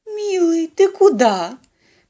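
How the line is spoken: Sleepy purr over comm. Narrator (Russian): Сонно промурлыкала Маша из комма

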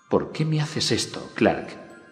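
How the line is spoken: Muttered. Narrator (Spanish): masculló

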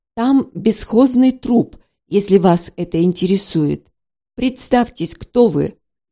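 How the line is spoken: Rude grumbling over phone. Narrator (Russian): без особой вежливости пробурчала трубка

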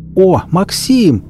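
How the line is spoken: Yelling from behind. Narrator (Russian): заорали позади

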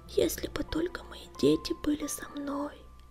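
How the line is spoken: Feverish whisper. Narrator (Russian): лихорадочно зашептала синяя звезда

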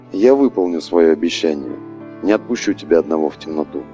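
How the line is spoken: Whispered. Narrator (Russian): пока сын спал, и прошептал

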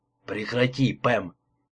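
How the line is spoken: Quiet. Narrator (Russian): Эрскин тихо сказал ей

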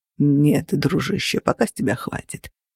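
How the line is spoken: Grumble. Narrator (Russian): проворчал Кости

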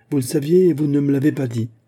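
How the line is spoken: Musketeer's exclamation. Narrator (French): s'écria le mousquetaire

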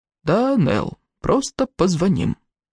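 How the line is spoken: Sad confirmation. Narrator (Russian): печально подтвердил он

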